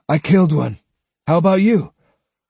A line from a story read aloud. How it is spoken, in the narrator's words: Matahachi announced breathlessly